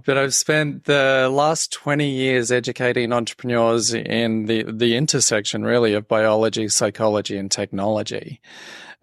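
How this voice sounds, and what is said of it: Australian accent. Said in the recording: “I'm originally from Australia, as people will be trying to work out from the accent.”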